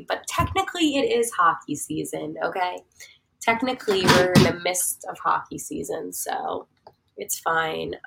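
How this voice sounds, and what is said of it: Strained, nearly lost voice. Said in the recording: “I'm trying not to lose my voice here, as you guys can tell.”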